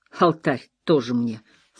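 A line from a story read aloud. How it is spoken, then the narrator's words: Snort. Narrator (Russian): фыркнул Паттерсон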